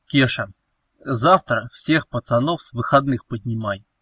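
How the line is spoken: Cold command. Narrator (Russian): холодно приказал Велес

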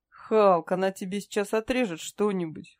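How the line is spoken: Guffawing. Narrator (Russian): хохотал усатый

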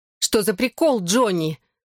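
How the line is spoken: Angry yell. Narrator (Russian): завопила Белла, сердито

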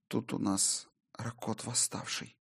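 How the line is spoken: Flat colorless whisper. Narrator (Russian): бесцветным голосом прошептала Солей

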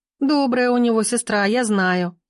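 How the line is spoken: Giggling. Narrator (Russian): хихикнула Рита

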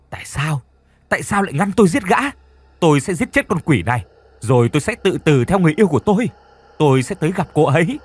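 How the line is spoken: Anguished screaming. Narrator (Vietnamese): Cậu ta miệng thì gào thét

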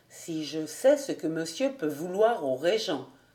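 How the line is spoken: Murmur to himself. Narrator (French): murmura-t-il en se parlant à lui-même

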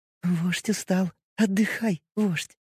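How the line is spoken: Whisper. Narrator (Russian): прошептала она

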